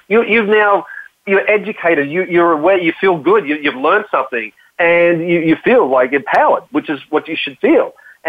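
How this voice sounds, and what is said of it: Australian accent. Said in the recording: “if they can understand my Australian accent.”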